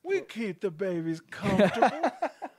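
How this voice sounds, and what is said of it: Imitates another person's voice. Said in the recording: “you're doing Alex Jones impression of that governor ... impression of Alex Jones's impression”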